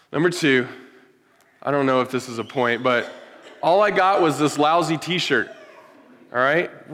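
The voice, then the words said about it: Strained voice about to give out. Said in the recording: “my voice is like about to kick out here”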